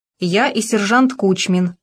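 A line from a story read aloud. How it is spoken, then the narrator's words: Plain. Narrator (Russian): ответил Маркелов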